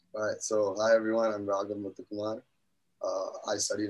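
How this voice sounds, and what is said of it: Hoarse, partly lost voice. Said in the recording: “I've been better. My voice is a little lost.”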